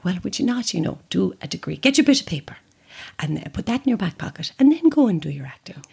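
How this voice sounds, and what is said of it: Generic Irish mammy accent. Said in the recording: “This is a very generic Irish mammy accent ... it's a very generic mother accent, but it is her to a T.”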